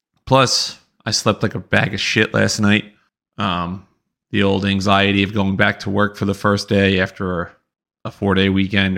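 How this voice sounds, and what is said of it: Slightly raspy voice. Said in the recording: “hear it in my voice, a little raspy ... my voice continues to hurt”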